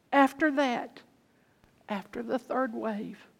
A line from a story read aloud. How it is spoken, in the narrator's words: started sobbing